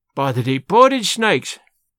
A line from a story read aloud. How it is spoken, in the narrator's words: he exclaimed